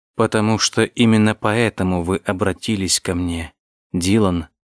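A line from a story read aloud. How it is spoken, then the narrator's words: Plain. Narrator (Russian): сказала Ева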